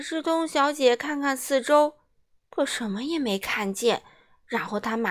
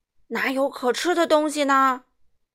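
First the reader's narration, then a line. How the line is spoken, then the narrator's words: Roaring lion. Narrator (Chinese): 那只狮子咆哮着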